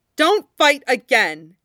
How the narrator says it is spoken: she says loudly

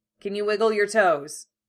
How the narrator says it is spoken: Levi barks

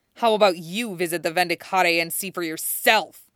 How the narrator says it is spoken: Xanthus snarled

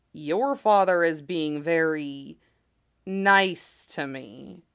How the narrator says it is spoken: Yadomir remarks slowly

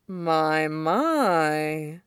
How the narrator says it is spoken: purrs

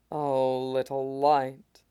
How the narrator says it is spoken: Pierre rumbled

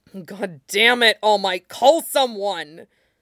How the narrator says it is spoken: He snapped, terror spilling over into fury at the hero's stubbornness

